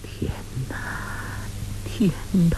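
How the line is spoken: Murmured cry. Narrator (Chinese): 英姑又喃喃地叫道

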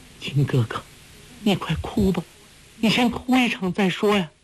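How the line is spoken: Trembling voice. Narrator (Chinese): 黄蓉颤声道

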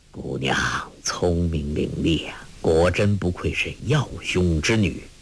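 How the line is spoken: Whispered. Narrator (Chinese): 一灯低声说

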